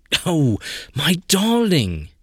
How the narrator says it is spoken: He cried out

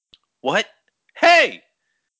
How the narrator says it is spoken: The voice cried out behind him

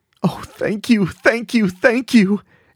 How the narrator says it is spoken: Amber sobbed

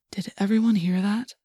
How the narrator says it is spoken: Tobias whispered

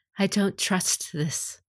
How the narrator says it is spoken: Kachiko murmured

